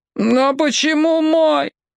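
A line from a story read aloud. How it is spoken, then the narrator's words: Two heads moaning. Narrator (Russian): простонали обе головы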